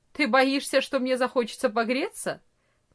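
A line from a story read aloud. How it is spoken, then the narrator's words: Mocking. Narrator (Russian): насмешливо ответил Франц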